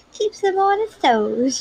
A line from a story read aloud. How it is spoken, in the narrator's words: Jocelyn laughed